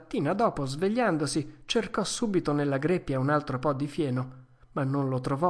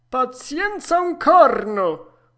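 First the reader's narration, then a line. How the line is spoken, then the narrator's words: Shouted. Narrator (Italian): urlò il padrone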